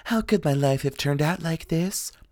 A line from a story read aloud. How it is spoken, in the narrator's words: Cold, limp vegetables that whispered